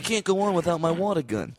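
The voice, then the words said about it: Impression of Dom Herrera from Seinfeld. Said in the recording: “Is that your Carrot Top impression? ... No, that was Dom Herrera from Seinfeld.”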